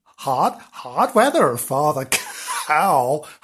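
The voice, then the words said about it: Put-on American accent. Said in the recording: “Accent. ... He's become American ... what a random selection of, of her, accents there.”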